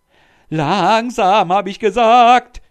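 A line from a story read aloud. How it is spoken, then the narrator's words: Shouting. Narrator (German): schrie der Sultan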